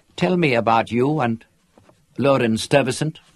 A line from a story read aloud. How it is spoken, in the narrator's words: she said